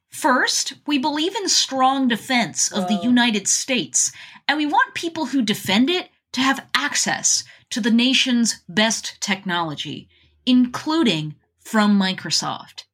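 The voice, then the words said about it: Polished corporate spokesperson voice. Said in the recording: “Do a good corporate voice”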